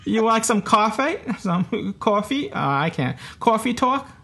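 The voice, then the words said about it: Put-on New York accent. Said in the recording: “excuse a New Yorker trying to do a New York accent. I probably sound nothing like New York now when I'm doing the accent.”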